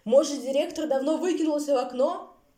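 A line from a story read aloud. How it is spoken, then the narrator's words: Shouted into ear. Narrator (Russian): прокричал волк в ухо кузнечику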